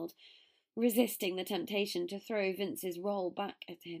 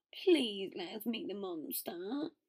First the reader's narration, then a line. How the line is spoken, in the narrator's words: Greg whined